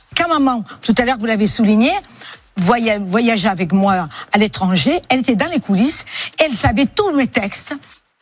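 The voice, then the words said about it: Woman with pronounced regional French accent. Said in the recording (French): “une dame qui a l'accent ... elle a un accent quand même qui est beaucoup plus prononcé”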